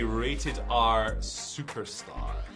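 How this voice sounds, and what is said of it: Exaggerated pirate accent. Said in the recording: “I would like to hear the ... say... I just wanted to hear that in a pirate accent”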